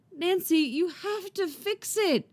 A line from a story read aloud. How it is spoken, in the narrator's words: Robin pleads